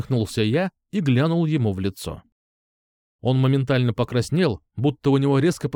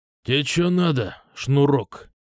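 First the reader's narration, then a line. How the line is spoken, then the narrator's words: Hoarse rasp. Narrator (Russian): прохрипел он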